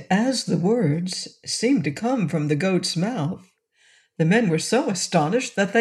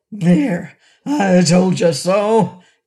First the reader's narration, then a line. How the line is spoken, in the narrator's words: cried the voice angrily